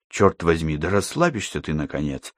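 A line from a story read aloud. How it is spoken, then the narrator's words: Sudden whisper in Danish. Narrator (Russian): внезапно шепнул он на чисто датском языке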